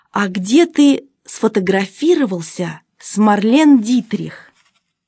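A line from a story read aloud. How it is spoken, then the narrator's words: Tender question. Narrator (Russian): она нежно спросила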